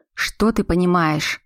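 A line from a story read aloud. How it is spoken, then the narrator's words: Through gritted teeth. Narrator (Russian): процедил Роман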